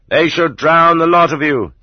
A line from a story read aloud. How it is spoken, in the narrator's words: such people shouted